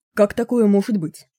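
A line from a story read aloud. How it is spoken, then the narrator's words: Plain. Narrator (Russian): спросил Браунинг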